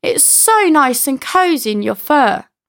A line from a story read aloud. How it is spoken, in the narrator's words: The flea happily replies